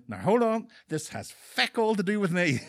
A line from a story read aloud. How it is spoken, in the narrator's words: he raised his hands in the air, exclaiming